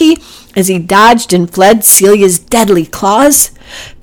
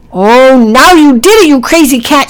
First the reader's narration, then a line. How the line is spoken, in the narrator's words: shouted Packy